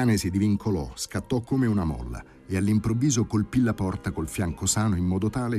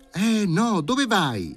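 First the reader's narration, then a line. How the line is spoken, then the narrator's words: Began shouting. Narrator (Italian): si mise a gridare colei che veniva chiamata Zina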